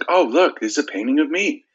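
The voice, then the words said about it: Mark Wahlberg impression. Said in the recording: “You do a very good impression”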